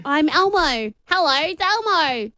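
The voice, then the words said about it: Squeaky American Elmo character voice. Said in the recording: “And with an American accent... I'm speaking an American accent. Now I make it squeaky.”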